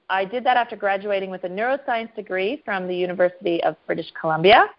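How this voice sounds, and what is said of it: Canadian accent. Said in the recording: “my Canadian accent, even though I have lived in Australia for 16 years”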